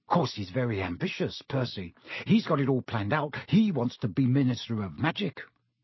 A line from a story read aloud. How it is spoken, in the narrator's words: Ron told Harry and Hermione in an undertone